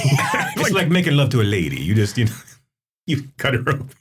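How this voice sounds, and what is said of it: Put-on Italian accent. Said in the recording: “I just shouldn't have said it in an Italian accent.”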